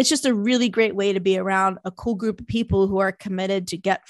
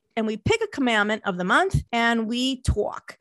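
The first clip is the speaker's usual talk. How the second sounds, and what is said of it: Put-on New Jersey accent. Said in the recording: “That's my Jersey accent.”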